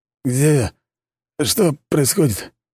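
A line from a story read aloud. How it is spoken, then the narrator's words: Forced out with effort. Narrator (Russian): выдавил из себя шахтер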